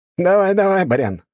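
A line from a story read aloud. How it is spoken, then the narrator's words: Chuckling. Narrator (Russian): хохотнул второй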